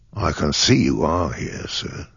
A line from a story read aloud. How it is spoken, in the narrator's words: said, very quietly